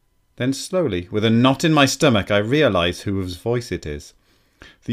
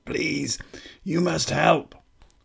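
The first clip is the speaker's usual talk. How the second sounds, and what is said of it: Very deep, rasping, inhuman voice. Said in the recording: “a very deep voice. It's not a kid's voice at all, or even a man's. It rasps and echoes like a rock rattling down a metal pipe. ... Almost not human.”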